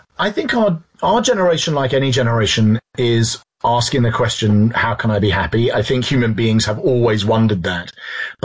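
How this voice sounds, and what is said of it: English London accent. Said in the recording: “you're from London. You could tell from the accent.”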